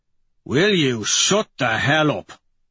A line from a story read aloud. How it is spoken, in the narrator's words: Dancer barks at him